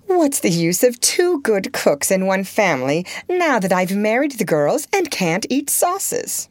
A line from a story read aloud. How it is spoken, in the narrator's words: She used to say laughingly